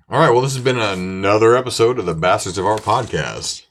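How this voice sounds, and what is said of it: Radio announcer voice. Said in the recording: “my radio voice ... That is your radio voice.”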